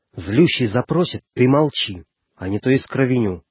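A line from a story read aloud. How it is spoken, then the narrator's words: Barely audible, sharp, commanding. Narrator (Russian): чуть слышно сказал резким повелительным тоном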